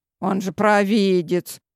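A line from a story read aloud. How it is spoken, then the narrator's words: Snorted. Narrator (Russian): хмыкнул Герман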